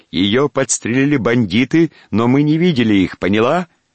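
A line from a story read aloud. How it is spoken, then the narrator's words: Shouted. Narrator (Russian): Поль крикнул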